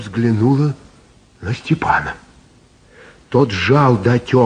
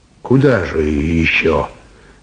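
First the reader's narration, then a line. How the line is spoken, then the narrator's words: Sighing. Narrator (Russian): вздохнул Степан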